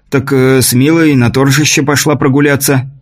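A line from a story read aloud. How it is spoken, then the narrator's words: Frightened. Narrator (Russian): испуганно произнес слуга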